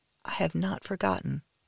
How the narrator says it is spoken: whisper

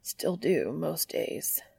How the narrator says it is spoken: he mumbles under his breath

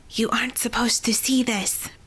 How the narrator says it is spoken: Persephone whispered as she ran

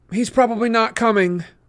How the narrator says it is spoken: Rachel said miserably

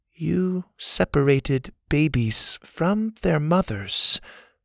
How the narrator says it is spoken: the girl said in her soft voice

